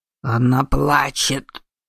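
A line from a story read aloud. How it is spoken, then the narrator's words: Growled. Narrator (Russian): прорычал Йокай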